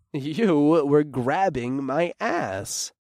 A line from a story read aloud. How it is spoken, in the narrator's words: I chuckled